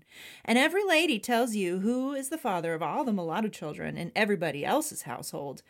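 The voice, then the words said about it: Impression of Mary Boykin Chesnut. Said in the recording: “You like my Mary Boykin Chestnut? ... It was a very good impression.”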